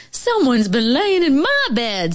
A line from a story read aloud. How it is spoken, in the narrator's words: said the mama bear in her middle voice